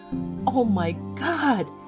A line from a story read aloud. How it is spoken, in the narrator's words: She gasped